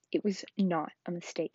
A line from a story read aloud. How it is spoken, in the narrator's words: Harry said angrily